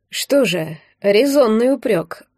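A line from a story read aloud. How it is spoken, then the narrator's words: Sighing. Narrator (Russian): вздохнул старший Вересков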